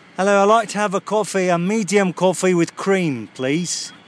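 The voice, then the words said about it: Pronounced put-on accent. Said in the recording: “my accent is slipping all over the place ... I'm gonna do something a little bit more pronounced ... I don't know the dialects, but it's going to be a little bit different here ... I'm gonna order the coffee under this little accent here”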